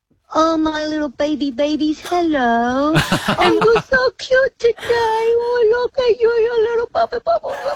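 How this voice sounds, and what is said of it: Baby voice. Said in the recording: “talk to us in a baby voice”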